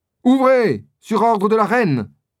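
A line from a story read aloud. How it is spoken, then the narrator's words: Shouting. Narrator (French): crie D'Artagnan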